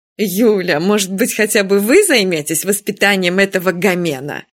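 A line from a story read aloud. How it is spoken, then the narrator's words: Moaning. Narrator (Russian): простонала Нина Федосеевна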